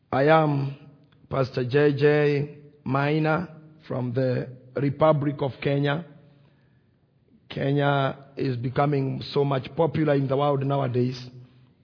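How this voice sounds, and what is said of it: Heavy Kenyan English accent. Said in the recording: “my accent will not be too heavy for you to hear ... I won't have very heavy accent”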